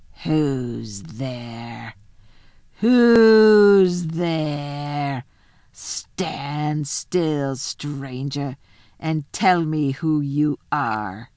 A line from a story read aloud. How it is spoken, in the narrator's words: the huge creature said in a growling voice